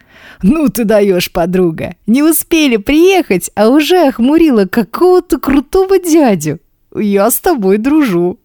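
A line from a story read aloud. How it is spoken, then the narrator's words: Laughing nonstop. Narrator (Russian): Не перестает смеяться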